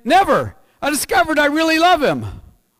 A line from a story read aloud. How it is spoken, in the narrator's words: And she exclaimed